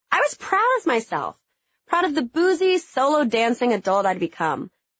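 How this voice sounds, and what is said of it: Southern American accent. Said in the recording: “my southern accent that I still clung to”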